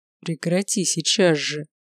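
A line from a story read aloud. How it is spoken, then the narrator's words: Through clenched teeth. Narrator (Russian): Процедил Горовой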